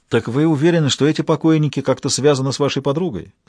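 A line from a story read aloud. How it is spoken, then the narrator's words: Plain. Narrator (Russian): спросил доктор Эфраим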